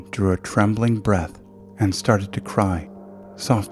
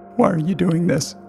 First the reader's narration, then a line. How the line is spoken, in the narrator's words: whimpered